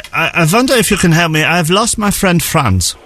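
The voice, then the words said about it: Put-on German accent. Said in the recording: “I'll apologise for the accent in advance.”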